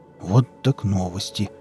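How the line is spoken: Mumbling. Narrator (Russian): пробормотал Виллис

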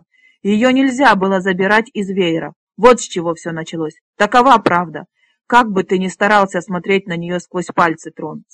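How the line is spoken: Angry shout. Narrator (Russian): со злостью выкрикнул Тпор

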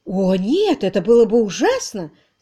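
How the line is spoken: Frightened exclamation. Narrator (Russian): в страхе воскликнула она

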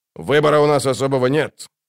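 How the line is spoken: Grumbling. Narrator (Russian): проворчал Дуджик

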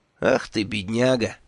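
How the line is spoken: Sympathetic sigh. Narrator (Russian): вздохнул я

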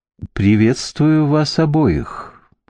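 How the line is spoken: Gentle lyrical girlish voice. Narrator (Russian): промолвила Севрейн нежным лиричным голосом, которым звучала девичья почти детская пылкость

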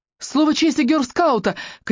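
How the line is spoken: Shout. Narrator (Russian): крикнула Руби

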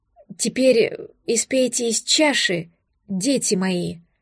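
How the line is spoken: Faltering, nervous. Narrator (Russian): Чуть запнувшись, побледневший священнослужитель

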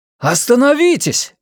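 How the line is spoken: Booming exclamation. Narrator (Russian): воскликнул дикарь громогласно

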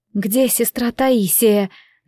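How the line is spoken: Strained hoarse rasp. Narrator (Russian): надрывно прохрипела я

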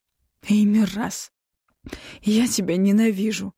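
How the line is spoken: Breathed out. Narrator (Russian): выдохнула наконец

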